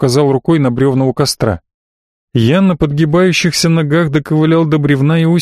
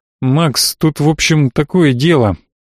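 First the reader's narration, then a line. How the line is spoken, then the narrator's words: Mumble. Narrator (Russian): промямлил он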